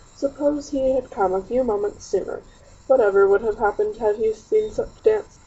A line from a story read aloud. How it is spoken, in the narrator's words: she gasped, her eyes sparkling